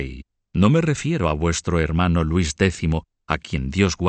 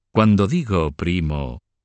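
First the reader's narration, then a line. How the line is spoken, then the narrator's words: Mocking retort. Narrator (Spanish): replicó Roberto en tono bastante burlón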